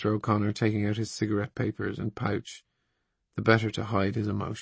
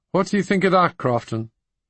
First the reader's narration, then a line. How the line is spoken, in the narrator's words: cried Mr